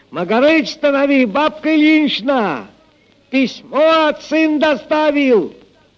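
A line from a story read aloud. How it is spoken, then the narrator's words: Shouted from afar. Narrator (Russian): еще издали крикнул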